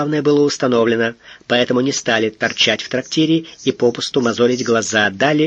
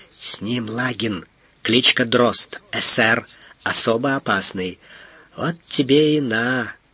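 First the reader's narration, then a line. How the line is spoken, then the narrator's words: Whispered. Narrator (Russian): Наклонившемуся Фондорину шепнул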